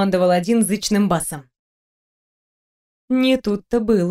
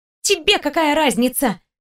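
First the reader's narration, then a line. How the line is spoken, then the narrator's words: Girl snapping. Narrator (Russian): огрызнулась девочка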